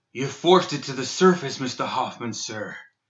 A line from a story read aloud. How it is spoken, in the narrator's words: wheezed the out-of-breath Guild Guard Sergeant